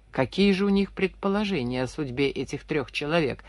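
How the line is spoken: Plain. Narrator (Russian): спросил Лавров

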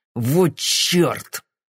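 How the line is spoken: Hissed through clenched teeth. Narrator (Russian): сквозь зубы процедил Суини

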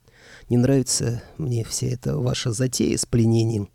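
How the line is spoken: Sighing. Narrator (Russian): вздохнул я

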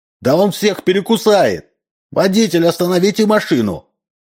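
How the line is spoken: Shouts from behind. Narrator (Russian): крикнули сзади

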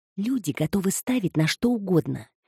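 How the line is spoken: Quiet explanation. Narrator (Russian): тихо пояснила Эми

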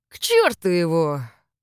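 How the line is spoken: Hissed. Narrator (Russian): прошипел он

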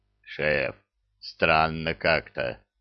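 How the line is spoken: Booming drone. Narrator (Russian): прогудел Зырк

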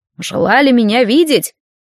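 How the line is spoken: Raspy, smoke-worn voice. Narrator (Russian): Судя по голосу, это был мужчина, или же баба с очень прокуренным и сорванным голосом

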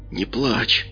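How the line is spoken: Barely audible. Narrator (Russian): едва слышно проговорил каббалист

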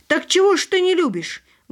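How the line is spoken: Loud, quarrelsome. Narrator (Russian): громким скандальным голосом повторила она

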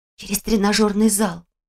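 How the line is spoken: Whispered. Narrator (Russian): шепнула она

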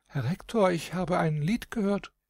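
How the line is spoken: Sighing sweet little voice. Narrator (German): Seufzend mit süßem Stimmlein sagte die Prinzessin

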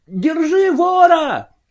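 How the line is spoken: Shout. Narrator (Russian): крикнул он

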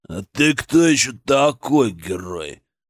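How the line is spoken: Deep bass voice. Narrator (Russian): пробасил он

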